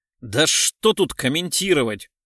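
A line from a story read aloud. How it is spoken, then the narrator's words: Irritated, angry. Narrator (Russian): Раздраженно сказал Курносов, в сердцах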